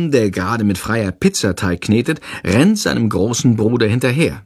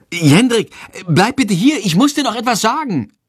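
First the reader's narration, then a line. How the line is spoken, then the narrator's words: Calling out. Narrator (German): ruft sie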